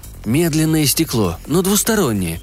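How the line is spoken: Soft. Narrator (Russian): сказал я мягко

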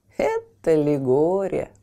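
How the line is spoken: Neighbor laughing. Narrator (Russian): рассмеялась соседка

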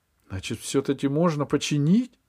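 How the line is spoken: Joyful question. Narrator (Russian): радостно спросил Пашка

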